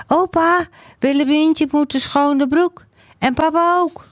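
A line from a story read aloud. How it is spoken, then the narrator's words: Called out. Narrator (Dutch): Jan-Jaap roept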